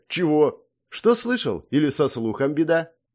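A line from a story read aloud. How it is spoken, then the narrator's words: Snide, mocking. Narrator (Russian): ехидно произнесла Вика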